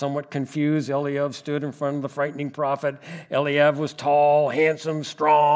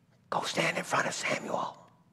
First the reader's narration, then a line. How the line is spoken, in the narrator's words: Jesse quickly whispered to his oldest son, Eliab